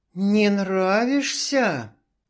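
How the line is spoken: Hiss. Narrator (Russian): снова зашипела Алина

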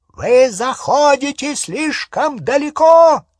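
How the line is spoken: Shouting. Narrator (Russian): закричал Скримджер

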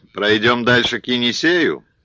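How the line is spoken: Hoarse voice. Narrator (Russian): И голос осип, точно всю ночь орал песни

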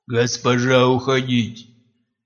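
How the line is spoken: Commanding growl. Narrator (Russian): Теперь уже повелительно рыкнул Гар

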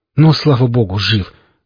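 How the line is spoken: Relieved exhale. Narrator (Russian): выдохнул друг

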